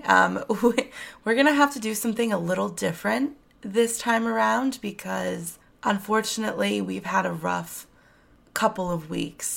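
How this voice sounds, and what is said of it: Raspy voice. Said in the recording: “my voice is a little bit super raspy.”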